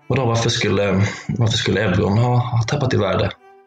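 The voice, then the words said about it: Shaky, trembling voice. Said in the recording (Swedish): “svarade jag med skakig röst”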